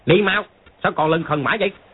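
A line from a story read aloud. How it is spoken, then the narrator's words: Mongol warrior's shout. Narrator (Vietnamese): một tên võ sĩ Mông Cổ quát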